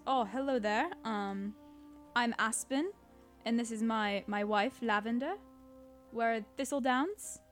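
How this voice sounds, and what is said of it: Character voice with a put-on accent. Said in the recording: “I just gave him an accent.”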